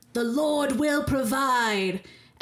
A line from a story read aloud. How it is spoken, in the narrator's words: yell in a booming voice